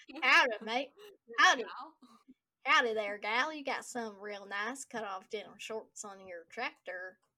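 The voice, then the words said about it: Exaggerated put-on Southern accent. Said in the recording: “I can't even do a Southern accent right now. How do you do a Southern accent?”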